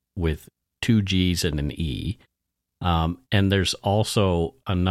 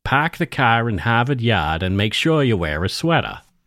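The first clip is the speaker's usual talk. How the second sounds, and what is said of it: Cliché Massachusetts accent. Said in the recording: “that is a Massachusetts accent ... it is the let's just say the cliche Massachusetts accent”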